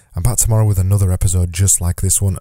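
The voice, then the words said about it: Strained, weak voice giving out. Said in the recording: “my voice is still not doing great. I'm actually really struggling at the minute to make it through an 8-minute podcast episode ... my voice keeps giving out halfway through these podcast episodes”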